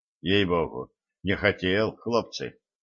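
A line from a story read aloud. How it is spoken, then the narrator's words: Muttered. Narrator (Russian): пробормотал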